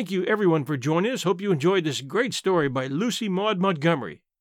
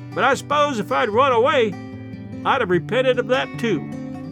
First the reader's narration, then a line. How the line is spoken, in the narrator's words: she shouted after us